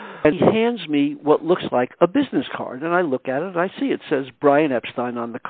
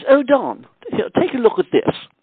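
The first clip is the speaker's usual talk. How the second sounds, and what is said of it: Gentlemanly British accent, Brian Epstein impression. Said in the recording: “trying to, you know, do a British accent ... Brian Epstein was a real gentleman, and I'm trying to be a gentlemanly British accent”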